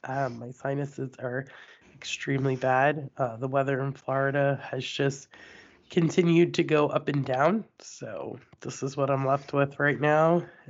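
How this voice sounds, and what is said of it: Raspy, congested voice. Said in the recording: “Sorry for the voice. ... It's just a raspy voice today.”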